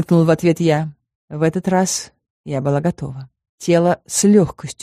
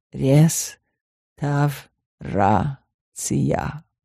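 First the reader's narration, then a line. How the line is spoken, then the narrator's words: Smug drawl, syllable by syllable. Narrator (Russian): самодовольно протянул по слогам он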